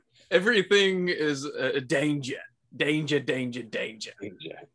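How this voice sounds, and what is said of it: Put-on Australian accent. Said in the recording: “that Aussie accent ... I'm so good at accents”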